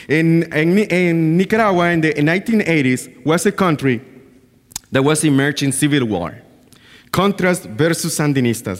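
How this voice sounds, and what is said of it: Nicaraguan Caribbean English accent. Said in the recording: “I was born in Nicaragua in a place called Bluefields ... They speak English and they speak Patois ... that's why you can understand me now, where my accent is coming from and all this difficult way to understand me too”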